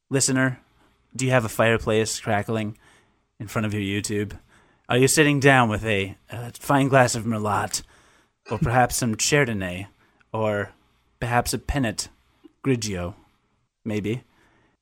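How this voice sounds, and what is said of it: Dignified, theatrical TV presenter voice. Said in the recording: “That was a weird voice. ... I feel like I should be presenting for Masterpiece Theater. I should feel very much more dignified”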